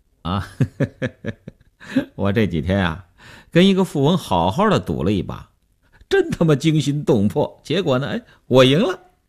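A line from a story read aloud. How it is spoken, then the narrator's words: Smiling. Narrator (Chinese): 刘文庆笑笑说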